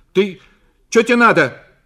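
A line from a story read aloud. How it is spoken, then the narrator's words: Startled shout on waking. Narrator (Russian): крикнула Зина, проснувшись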